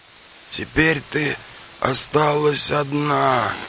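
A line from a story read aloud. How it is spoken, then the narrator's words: Groaning. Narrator (Russian): простонал Каликаев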